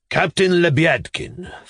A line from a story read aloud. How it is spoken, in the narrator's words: thundered the captain